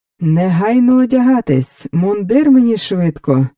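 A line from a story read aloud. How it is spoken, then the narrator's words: Joyful shout. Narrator (Ukrainian): радісно загукав Фелікс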